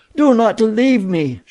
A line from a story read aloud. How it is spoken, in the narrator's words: she cried